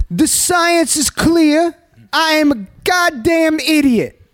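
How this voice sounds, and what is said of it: Eric Adams impression. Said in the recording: “if you're going to do the mayor's voice ... my Eric Adams impersonation ... That's pretty good. Not as good as Mike”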